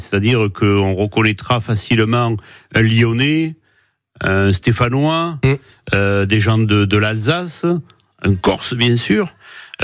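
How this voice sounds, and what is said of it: Southern French Nîmes accent. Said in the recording (French): “vous êtes extrêmement fier de votre accent ... En langage nîmois”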